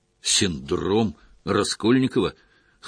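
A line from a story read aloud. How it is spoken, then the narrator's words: Snort. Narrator (Russian): хмыкнул Гордеев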